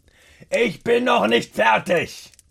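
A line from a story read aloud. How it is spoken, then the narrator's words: Emphatic roar. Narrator (German): brüllt Rainer mit Nachdruck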